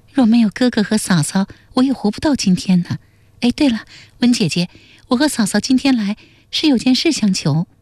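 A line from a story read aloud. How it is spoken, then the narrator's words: Faint smile, then sigh. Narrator (Chinese): 简真微微笑了一下，随即叹道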